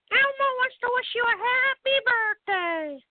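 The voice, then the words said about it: Elmo character voice impression. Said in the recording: “I can do a quick impression. I'll do Elmo.”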